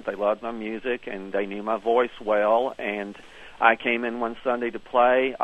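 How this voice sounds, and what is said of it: Southern American accent. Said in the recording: “They liked my Southern accent.”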